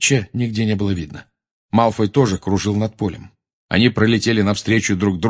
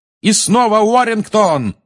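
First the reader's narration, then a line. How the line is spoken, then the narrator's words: Yelling. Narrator (Russian): орал Ли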